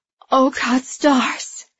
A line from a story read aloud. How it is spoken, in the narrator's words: Andy gasped